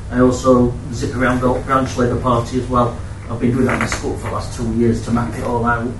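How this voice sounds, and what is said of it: Sheffield accent. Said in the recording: “Hope you can understand my accent. Sheffield.”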